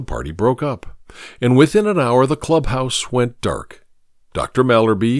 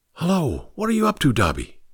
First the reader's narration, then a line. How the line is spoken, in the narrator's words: he queried in a low whisper